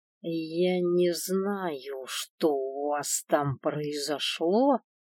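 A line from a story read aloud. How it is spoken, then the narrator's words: Stern, through gritted teeth. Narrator (Russian): сурово глядя процедила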